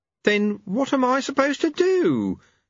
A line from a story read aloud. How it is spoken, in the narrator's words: wailed